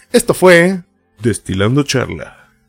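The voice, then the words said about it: Late-night radio announcer voice. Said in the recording (Spanish): “con la voz de narrador de la noche... locutor de la noche”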